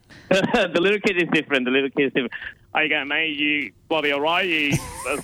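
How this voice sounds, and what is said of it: Put-on Australian accent. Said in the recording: “Australian accent ... you do it beautifully well ... Aussie”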